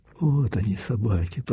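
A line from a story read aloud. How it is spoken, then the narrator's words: Whispered. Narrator (Russian): прошептал Андрей Ерин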